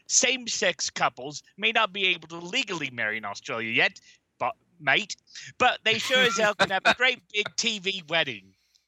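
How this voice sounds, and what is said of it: Attempted Australian accent. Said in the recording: “I can't do an Australian accent.”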